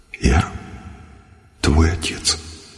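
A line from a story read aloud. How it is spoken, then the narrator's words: Quiet. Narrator (Russian): Я ему и говорю так же тихо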